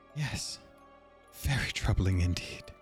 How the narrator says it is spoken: the woman, who went by the name Madame Ostera, muttered

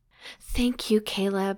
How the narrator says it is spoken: she whispered

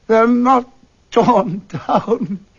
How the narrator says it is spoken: he cried

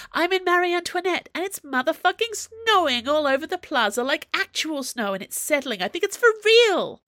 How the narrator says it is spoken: Aramis howls

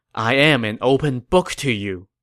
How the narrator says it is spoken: Zhuge Liang sighed and said

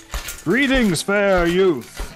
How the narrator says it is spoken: cried the first knight, smiling down at Percival

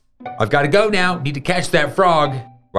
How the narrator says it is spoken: Ryder shouted

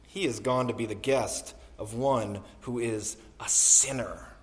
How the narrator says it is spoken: All who saw it began to grumble and said

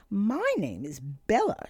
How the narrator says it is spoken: continued excitedly

